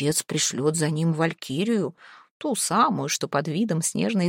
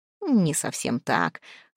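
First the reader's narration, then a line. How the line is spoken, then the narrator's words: Light laugh. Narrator (Russian): Хравн Черный слегка засмеялся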